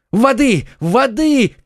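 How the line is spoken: Shouting. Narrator (Russian): кричал Д'Артаньян

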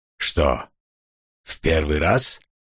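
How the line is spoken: Calm question, no mockery. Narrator (Russian): спокойно спросил маг, и в его голосе я не услышал насмешки

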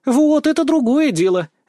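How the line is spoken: Cheerful shout. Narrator (Russian): весело прокричала Вика

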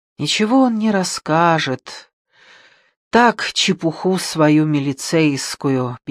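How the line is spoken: Sad woman's reply. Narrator (Russian): печально отвечала женщина

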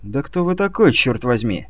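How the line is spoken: Irritated question. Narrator (Russian): раздраженно спросили

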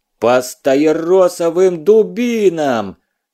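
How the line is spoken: Furious yell. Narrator (Russian): Свирепея заорал Малюта

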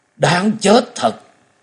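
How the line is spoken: Sudden cry. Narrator (Vietnamese): Hầu tẩu đột nhiên kêu lên

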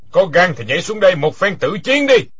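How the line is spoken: Loud laughing challenge. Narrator (Vietnamese): Quyết Đao Tăng ha ha cười lớn nói

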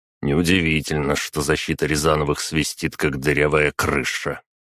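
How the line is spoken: Displeased grumbling. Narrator (Russian): еще более недовольным тоном проворчал Сема

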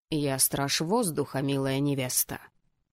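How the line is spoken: Hissed. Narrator (Russian): прошипел жених

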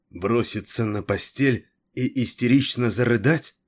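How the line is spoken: Angry, through gritted teeth. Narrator (Russian): Зло процедила Террес

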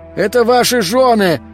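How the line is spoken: Shouting. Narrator (Russian): кричал Игорь

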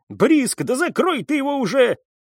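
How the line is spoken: Barked. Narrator (Russian): рявкнул Бармани

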